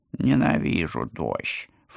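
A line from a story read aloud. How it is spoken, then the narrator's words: Snort. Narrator (Russian): фыркнул он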